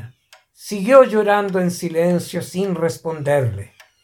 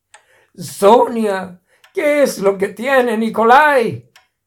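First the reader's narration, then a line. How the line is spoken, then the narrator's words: Desperate shout, composure lost. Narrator (Spanish): el tovarish capitán Vladimir Cherkov, por primera vez en años, perdió la compostura y le gritó desesperado a su mujer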